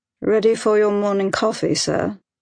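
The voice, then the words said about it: Proper British accent. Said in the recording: “A voice with a proper British accent”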